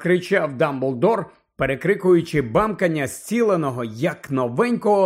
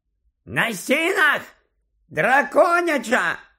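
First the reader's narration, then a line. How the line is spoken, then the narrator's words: Shouting over loud noise. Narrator (Ukrainian): Теж закричав у відповідь Чаклун на ім'я Горацій, бо саме в ту мить з оглушливим скреготом і дзенькотом вгвинчувалася в стелю люстра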